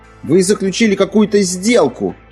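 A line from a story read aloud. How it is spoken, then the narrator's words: Boy shouting after someone. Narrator (Russian): крикнул мальчик ему вслед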